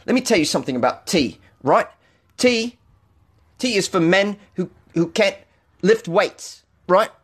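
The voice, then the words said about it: Bad put-on British accent. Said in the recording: “talking like a Brit ... that was a terrible accent”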